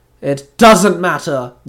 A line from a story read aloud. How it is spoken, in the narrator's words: the Zero Ranger growled